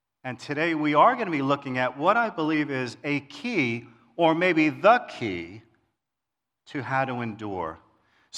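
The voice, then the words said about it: New York Queens accent. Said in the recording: “I grew up in New York City, in Queens. Some of you can hear the accent.”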